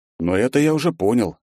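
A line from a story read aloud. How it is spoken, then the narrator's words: Relaxed snort. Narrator (Russian): расслабленно хмыкнул я в ответ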